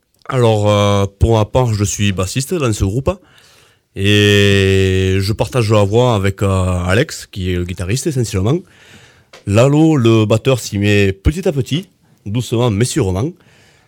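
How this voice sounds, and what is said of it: Regional French accent. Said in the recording (French): “vous avez l'accent”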